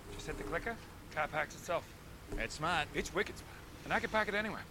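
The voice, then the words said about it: Boston accent. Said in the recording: “Is that a Boston accent?”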